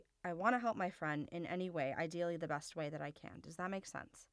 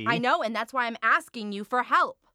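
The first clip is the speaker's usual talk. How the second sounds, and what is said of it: Shouting. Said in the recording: “sorry for shouting.”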